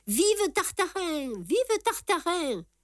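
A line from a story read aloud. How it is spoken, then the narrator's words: Crowd roaring. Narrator (French): hurla le peuple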